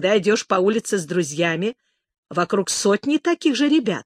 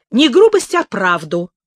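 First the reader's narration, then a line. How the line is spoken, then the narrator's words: Exclamation. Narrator (Russian): воскликнула Беатрис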